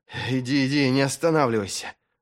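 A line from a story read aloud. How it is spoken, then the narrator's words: Muffled, strained. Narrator (Russian): глухо через силу проговорил Вест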